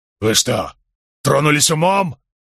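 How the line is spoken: Roar with tremor. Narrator (Russian): взревел Рейнольдс, однако в голосе его послышалась дрожь

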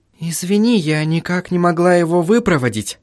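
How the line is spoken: Whisper. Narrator (Russian): прошептала Сахариса

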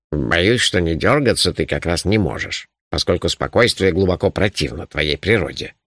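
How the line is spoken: Grumbling. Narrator (Russian): проворчал он

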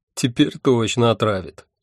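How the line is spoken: Snide prediction. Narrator (Russian): ехидно предрек я

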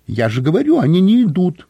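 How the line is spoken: Squeak. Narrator (Russian): пискнула Кайса

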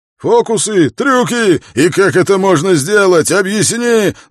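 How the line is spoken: Yelling. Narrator (Russian): завопил Батл

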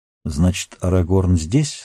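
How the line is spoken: Plain question. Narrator (Russian): спросил Йомар

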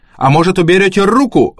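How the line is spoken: Barked. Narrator (Russian): рявкнула Алли

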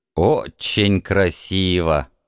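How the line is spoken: Grumbling. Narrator (Russian): проворчал обломок

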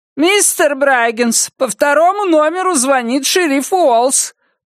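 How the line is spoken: Shouted over intercom. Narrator (Russian): прокричала она по интеркому

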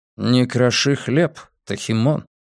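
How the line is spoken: Calm. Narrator (Russian): спокойно сказал ремень

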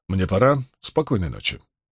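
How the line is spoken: Curt, dry. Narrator (Russian): Старший из двоих сухо бросив

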